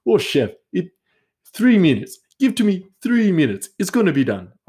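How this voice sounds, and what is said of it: Put-on unidentified foreign accent. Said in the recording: “I don't know what accent this is, but he, we're just going with it.”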